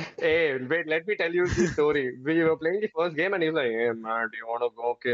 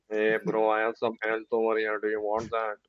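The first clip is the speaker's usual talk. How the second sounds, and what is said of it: Flat, bland imitation of another person. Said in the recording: “why do you have to be so bland about the way you speak?”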